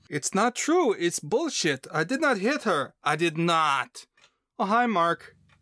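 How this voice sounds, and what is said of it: Impression of The Room line. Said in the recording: “Good impression.”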